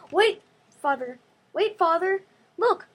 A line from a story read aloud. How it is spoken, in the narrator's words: I cried